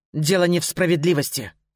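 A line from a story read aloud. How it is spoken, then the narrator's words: Growl. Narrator (Russian): рыкнул Скай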